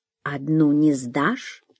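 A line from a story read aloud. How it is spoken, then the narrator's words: Quiet question. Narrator (Russian): тихо спросил шофер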